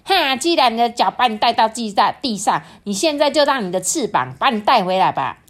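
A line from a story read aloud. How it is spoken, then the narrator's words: Quacking, squawking voice. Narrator (Chinese): 这些邻居们啊，都只是嘎嘎的叫着说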